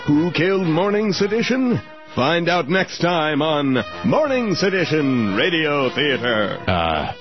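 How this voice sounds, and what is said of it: Radio theater announcer voice. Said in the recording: “the radio theater announcer ... doing this voice ... just talk in your real voice”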